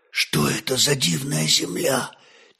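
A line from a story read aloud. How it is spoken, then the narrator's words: Quiet question. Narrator (Russian): тихо спросил Святослав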